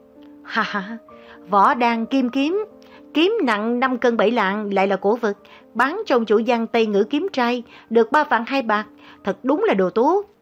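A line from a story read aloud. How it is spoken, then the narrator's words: Loud laughter. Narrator (Vietnamese): Hoàng Thất ngửa cổ lên trời cười lớn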